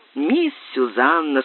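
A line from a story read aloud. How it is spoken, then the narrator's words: Laughing speech. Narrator (Russian): сказала, смеясь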